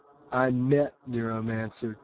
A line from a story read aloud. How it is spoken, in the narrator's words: Case said